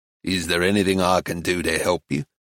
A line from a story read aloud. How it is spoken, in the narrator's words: he asked in a flat, ironic voice